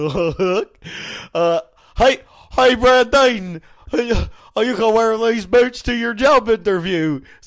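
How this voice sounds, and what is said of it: Cartoon hillbilly character voice. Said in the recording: “doing this impression, yeah. Cletus.”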